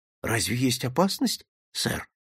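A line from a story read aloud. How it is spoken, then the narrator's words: Barely audible. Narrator (Russian): чуть слышно проговорил Джонсон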